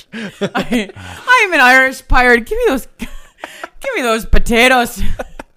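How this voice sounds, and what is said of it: Irish-sounding pirate accent. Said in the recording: “Why am I talking like I'm Irish? ... I'm an Irish pirate.”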